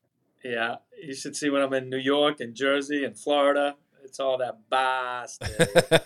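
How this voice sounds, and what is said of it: Boston accent. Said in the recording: “I can tell your Boston accent. I love it.”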